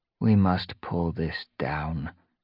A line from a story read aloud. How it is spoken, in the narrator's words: she murmured